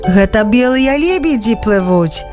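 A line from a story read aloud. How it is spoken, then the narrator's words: Explaining. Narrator (Belarusian): растлумачыў Янка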